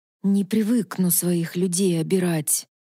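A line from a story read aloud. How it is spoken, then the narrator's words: Through clenched teeth. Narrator (Russian): процедил Илар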